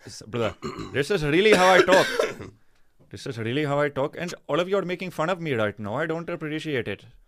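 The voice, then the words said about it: Put-on accent. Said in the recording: “you think I'm doing an accent ... Do not make fun of me for my accent”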